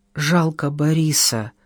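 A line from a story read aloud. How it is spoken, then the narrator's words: Muttered. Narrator (Russian): пробормотал Иван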